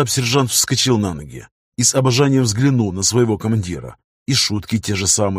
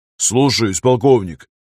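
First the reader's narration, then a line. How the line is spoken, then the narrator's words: Barked. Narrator (Russian): рявкнул он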